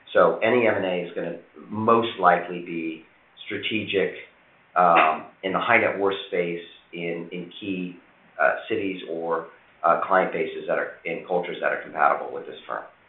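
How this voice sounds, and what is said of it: Slightly hoarse voice. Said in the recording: “I'm sorry I'm a bit hoarse. ... an allergy of some sort this morning”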